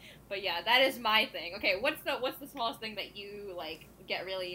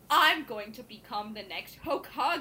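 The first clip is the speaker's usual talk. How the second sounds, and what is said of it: Strong put-on American accent. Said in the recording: “such a terrible, like, American accent ... such a strong American accent”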